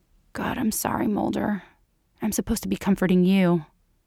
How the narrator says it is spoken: she murmurs

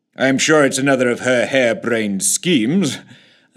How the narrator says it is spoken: chuckled the PM

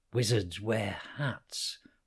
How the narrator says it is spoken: whispered Connor in reply

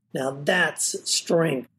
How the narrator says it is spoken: snorted

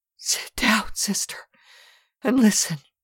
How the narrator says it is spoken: Marguerite, shuddering from head to foot so that the very bed shook with her nervous movements, gasped

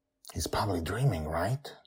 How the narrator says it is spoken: Justin whispers

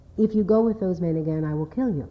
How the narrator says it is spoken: commented finally and quietly

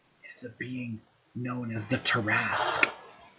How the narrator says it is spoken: whispers

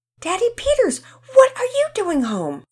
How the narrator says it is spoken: the children shouted

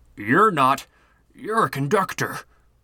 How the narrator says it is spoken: the man stammered

